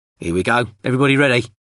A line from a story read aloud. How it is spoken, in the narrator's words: Then Craiglin shouted